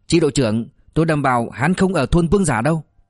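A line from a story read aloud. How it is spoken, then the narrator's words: Loud shout. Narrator (Vietnamese): Diệp Phàm hét to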